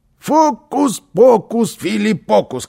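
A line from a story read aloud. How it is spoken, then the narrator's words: Shout. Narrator (Russian): крикнул Карлсон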